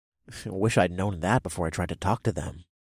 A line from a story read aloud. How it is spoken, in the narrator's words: I muttered